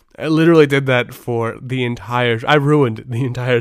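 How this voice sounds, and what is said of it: Usual voice. Nothing is said of it.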